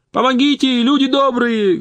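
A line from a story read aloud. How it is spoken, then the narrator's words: Loud shout. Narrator (Russian): громко закричал Митяй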